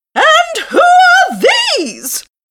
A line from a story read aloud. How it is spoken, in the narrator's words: cried the Queen angrily